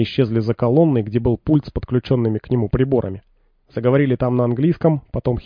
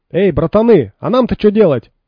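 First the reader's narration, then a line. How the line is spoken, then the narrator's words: Shouted after someone. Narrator (Russian): крикнул вслед пригоршня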